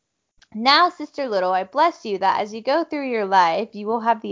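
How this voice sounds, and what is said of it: Usual voice. Nothing is said of it.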